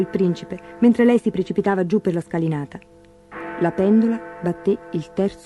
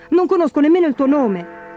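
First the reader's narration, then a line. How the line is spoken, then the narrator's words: Shouting. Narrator (Italian): gridò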